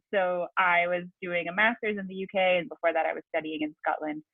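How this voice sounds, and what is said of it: Hard-to-place mixed American-English accent. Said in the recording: “half American, half English, which is why my accent is often very difficult for people to place”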